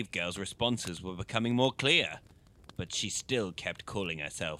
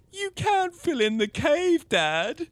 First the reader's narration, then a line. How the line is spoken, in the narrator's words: Annaliese sobbed